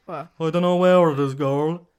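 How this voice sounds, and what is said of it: Imitates another person's voice. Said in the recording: “I can do a good impression of him ... Your impression's really good.”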